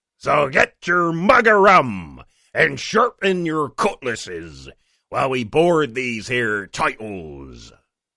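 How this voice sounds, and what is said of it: Put-on pirate accent. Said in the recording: “talk like a pirate”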